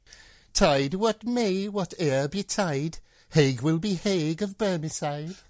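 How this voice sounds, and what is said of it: Put-on Scottish Borders accent. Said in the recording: “in your best Scottish border accent”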